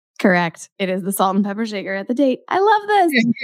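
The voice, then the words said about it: Slightly sick-sounding voice. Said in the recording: “I've been a little sick, so that's what you can hear in my voice a little.”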